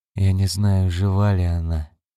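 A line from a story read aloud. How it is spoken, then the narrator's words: Tired mumble. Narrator (Russian): устало пробормотал Гарри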